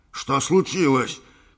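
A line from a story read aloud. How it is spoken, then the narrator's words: Shouted. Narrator (Russian): крикнул капитан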